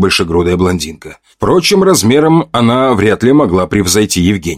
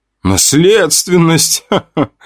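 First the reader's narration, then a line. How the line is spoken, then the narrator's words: Loud laughter. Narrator (Russian): громко рассмеялась Женя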